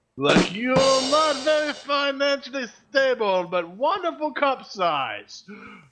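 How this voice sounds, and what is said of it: Poor Bond villain accent. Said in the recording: “You make a terrible Bond villain there ... Americans can't do accents”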